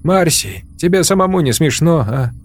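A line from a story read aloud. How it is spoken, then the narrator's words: Laughing. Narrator (Russian): Алгоритмист засмеялся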